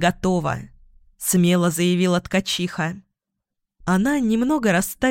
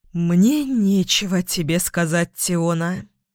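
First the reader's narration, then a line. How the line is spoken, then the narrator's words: Hesitant exhale. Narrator (Russian): после минутного колебания выдохнул Бон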